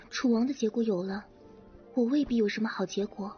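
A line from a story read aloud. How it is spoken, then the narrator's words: Long sigh. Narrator (Chinese): 惹儿长叹一声道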